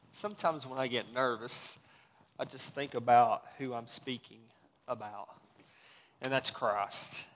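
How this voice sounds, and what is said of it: Mild Southern American accent. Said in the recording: “you can tell I'm not from here. I'm from the South, as you can kind of tell. My accent has really shrunk since I've been up here.”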